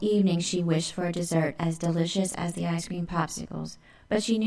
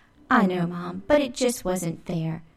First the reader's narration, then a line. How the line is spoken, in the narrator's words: moaned as she ran up to her room